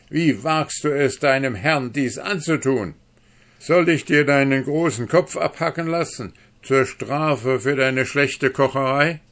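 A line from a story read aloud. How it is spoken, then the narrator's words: Calling out. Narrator (German): rief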